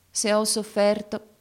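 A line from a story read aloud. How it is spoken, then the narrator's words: Plain. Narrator (Italian): disse ella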